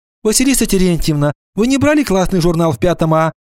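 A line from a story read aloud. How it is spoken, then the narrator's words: Shouting from afar. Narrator (Russian): еще издали крикнула Нина Петровна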